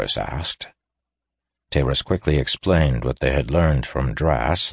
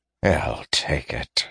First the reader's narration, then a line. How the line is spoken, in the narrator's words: he muttered